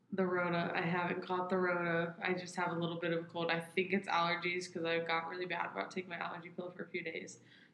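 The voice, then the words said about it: Nasal, congested voice. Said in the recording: “if I sound nasally, that's why ... That's why I sound nasally, like I'm plugging my nose and talking.”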